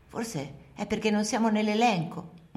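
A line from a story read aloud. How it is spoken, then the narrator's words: Murmured. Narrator (Italian): mormoro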